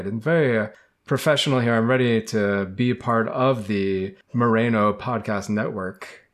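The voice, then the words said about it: Put-on radio announcer voice. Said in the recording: “I'm using my radio voice”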